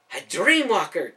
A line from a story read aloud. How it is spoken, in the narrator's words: Caleb gasped